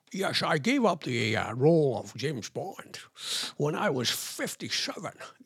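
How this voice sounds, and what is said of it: Sean Connery impression. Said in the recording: “It was, in fact, Sean Connery. ... it's given me the chance to do an impression for you.”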